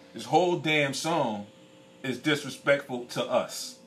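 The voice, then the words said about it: Angry, heated voice. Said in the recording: “excuse me if I sound a little angry ... I'm not sorry for being angry”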